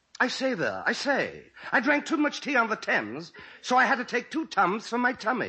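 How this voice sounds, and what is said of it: Posh English accent, Noel Coward impression. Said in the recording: “an impression of Noel Coward ... That is some English accent ... I speak English like I got a monocle up my nose”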